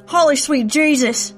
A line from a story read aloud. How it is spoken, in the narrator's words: screamed Stuart